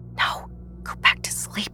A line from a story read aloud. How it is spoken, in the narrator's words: whisper